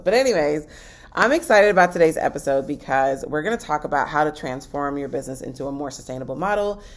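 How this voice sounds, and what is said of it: Voice fading in and out. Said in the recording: “my voice is going in and out ... you hear my voice fading and coming back”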